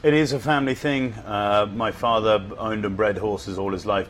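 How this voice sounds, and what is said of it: Non-American accent. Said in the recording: “with your accent, people may realize you are not from America”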